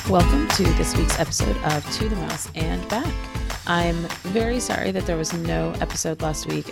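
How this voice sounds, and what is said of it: Sick, cold-affected voice. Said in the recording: “As you can probably hear from my voice, I came down with a pretty nasty cold”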